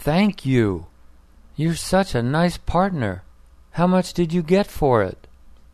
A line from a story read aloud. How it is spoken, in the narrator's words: she exclaimed